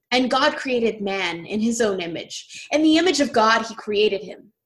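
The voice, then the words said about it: Grand, majestic reading voice. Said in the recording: “read in my most majestic voice”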